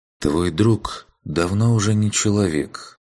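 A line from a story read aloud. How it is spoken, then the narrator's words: Sighing. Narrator (Russian): вздохнул Урхант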